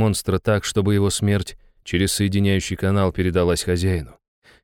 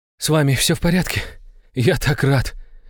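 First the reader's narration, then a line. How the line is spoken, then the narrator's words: Relieved exhale. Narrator (Russian): Выдохнул Иван, убедившись, что все его домочадцы живы и здоровы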